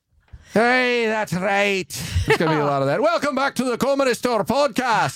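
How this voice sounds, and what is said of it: Put-on Scottish-sounding accent. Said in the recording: “I'm going to be Irish ... That's a Scottish, I think. ... A little Scotty. ... I think it's Scottish.”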